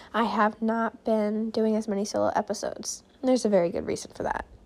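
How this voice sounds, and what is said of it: Hoarse, failing voice. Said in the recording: “losing my voice”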